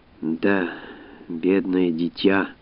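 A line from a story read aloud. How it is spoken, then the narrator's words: Sighing. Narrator (Russian): вздохнула Жозефина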